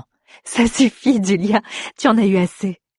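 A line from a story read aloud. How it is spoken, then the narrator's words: Laughing. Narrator (French): dit en riant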